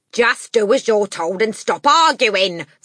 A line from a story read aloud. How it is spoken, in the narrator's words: the father snapped